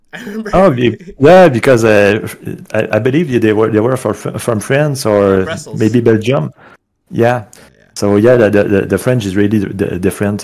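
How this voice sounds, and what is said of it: Quebec French accent. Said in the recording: “she could tell by your accent... you have a pretty cool accent... you were Quebec French”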